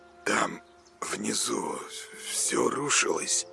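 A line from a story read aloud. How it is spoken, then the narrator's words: Blissfully calm mumbling. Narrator (Russian): забормотал Коля в блаженном покое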